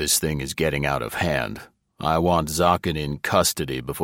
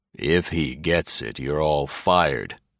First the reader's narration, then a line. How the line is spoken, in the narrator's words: Greg said calmly